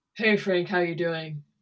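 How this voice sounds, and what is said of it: Put-on deep masculine voice. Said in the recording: “there's this whole voice involved in it ... is that because it's masculine?”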